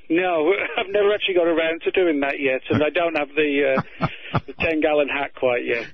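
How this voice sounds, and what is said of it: British accent, slightly faded. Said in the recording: “I hear your British accent is fading a bit”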